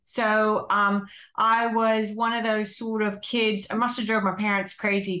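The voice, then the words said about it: American accent. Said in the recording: “you would pick up from my accent that I'm not Australian, or I wasn't born in Australia ... I was actually born in the United States.”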